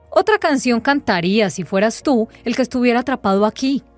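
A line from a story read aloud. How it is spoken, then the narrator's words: Knight growling. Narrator (Spanish): gruñó el caballero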